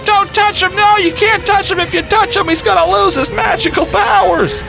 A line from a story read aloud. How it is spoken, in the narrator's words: my nephew starts screaming at me